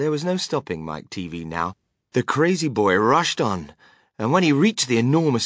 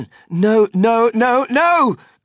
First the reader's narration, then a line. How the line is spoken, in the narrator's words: cried Mr